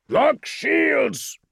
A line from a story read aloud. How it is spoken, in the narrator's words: Azoth bellowed out the command